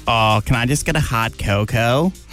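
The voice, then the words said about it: Put-on American accent. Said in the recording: “I had an American accent”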